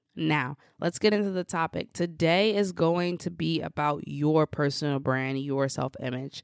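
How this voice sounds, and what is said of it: Slightly off voice, recovering cold. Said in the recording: “my voice may be a little bit off today because I am recovering from a cold ... if I sound a little bit different, if I sound a little bit off”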